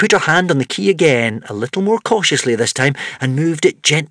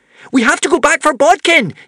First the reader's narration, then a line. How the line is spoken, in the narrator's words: yelled Wish